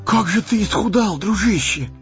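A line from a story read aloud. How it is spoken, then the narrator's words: Exclaiming. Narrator (Russian): воскликнул Сэмми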